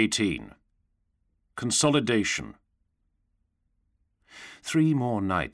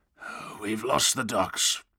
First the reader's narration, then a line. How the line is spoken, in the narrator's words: he said, and his voice was as tired and scratchy as he felt